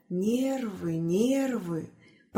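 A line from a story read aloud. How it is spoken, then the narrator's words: Whisper. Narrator (Russian): прошептал доктор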